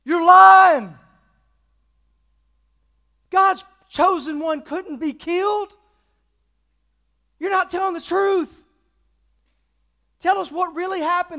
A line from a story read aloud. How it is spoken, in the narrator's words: people shouting at him